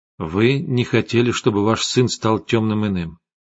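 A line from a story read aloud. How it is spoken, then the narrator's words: Plain. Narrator (Russian): сказал я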